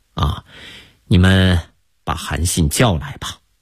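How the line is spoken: Sighing after silence. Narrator (Chinese): 刘邦沉默了许久，叹了口气说

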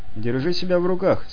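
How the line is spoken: Calm. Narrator (Russian): спокойно ответил Артем

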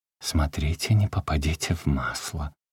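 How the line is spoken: Mysterious whisper. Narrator (Russian): Любка предупредила, но уже таинственно отвечающим моменту шепотом

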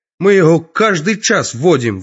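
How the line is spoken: Yelling. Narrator (Russian): вопит Анатоль

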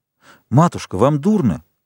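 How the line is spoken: Exclaimed. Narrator (Russian): воскликнул виконт

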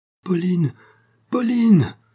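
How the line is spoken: Dying man shouting. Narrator (French): criait le moribond

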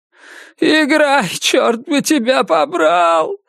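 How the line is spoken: Sobbing shout. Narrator (Russian): всхлипывая, крикнул он

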